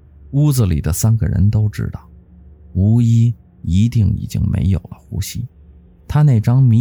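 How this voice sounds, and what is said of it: Usual voice. Nothing is said of it.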